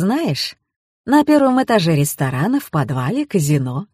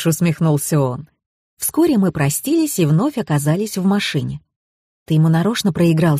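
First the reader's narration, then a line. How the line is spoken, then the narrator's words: Plain. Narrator (Russian): спросила я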